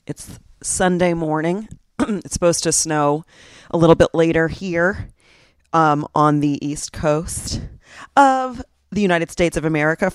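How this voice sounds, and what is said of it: Groggy morning voice. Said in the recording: “My voice is a little groggy-ish.”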